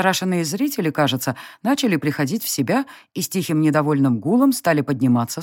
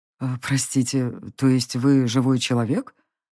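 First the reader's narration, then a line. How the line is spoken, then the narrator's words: Uncertain old man's question. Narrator (Russian): неуверенно уточнил старец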